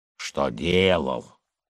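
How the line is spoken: Grumbling. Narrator (Russian): заворчал Николай

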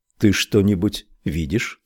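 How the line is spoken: Plain. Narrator (Russian): спросил Крамли

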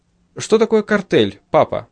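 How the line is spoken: Plain. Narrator (Russian): спросила Патти

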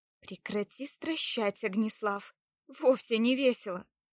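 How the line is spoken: Grumble. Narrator (Russian): буркнула на него Лада

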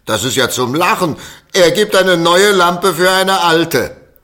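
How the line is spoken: Children shouting mockingly. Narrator (German): die Kinder hinter ihm her und schrien

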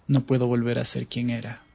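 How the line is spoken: Murmuring. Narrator (Spanish): musitó Lucian

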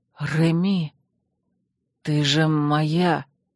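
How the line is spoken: Hoarse. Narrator (Russian): хрипло произнес он

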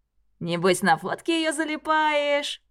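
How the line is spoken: Cheerful smirk, young man. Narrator (Russian): весело усмехается еще один парень

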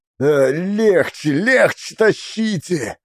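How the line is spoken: Groaning through gritted teeth. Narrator (Russian): Гришка стонал, скрипел зубами

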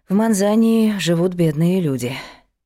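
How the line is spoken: Sighing. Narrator (Russian): вздохнула Алама Анна

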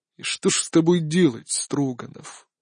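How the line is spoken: Weary emperor. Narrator (Russian): устало произнес император

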